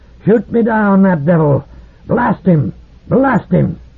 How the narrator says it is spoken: he thundered hysterically

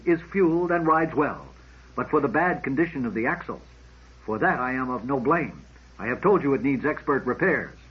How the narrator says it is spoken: said sullenly

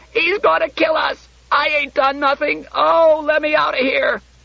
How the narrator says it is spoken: In a sudden whirlpool of sobbing, she yelled

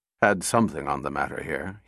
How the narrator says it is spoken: muttered

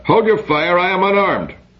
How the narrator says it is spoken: He called out

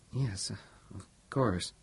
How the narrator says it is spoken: said Robertson hesitantly

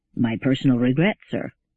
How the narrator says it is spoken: said Mandamus dryly

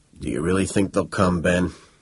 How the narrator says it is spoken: grunting and gasping, and said

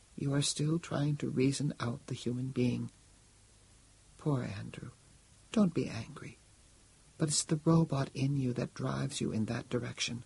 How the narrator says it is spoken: said Lai Sing sadly

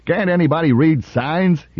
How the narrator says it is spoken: he yelled

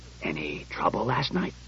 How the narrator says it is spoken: The commissioner said in a low voice

